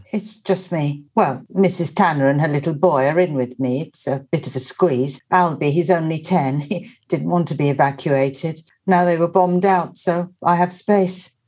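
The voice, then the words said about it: Czech accent. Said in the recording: “Your accent? ... Is it German? ... Czech.”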